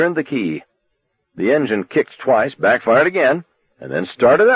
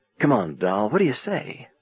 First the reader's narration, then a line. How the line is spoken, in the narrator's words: He murmured under his breath